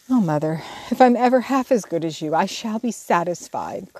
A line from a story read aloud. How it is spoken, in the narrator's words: cried Jo, much touched